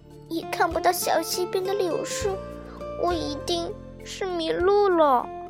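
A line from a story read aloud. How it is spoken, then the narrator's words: Quiet murmur. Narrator (Chinese): 他小声说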